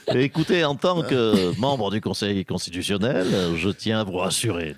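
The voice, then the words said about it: Impression of Alain Juppé. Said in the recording (French): “j'ai un petit timbre de voix. Petit accent. C'est Alain Juppé.”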